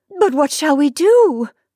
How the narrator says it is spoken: she cried, less composedly

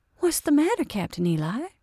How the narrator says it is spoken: she exclaimed

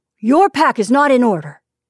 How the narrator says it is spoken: he said sharply

